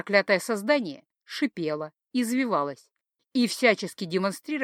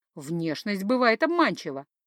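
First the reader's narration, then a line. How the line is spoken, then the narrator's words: Giggling. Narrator (Russian): хихикнул Кумивар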